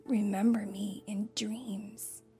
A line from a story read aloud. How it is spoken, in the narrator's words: he whispered to Mim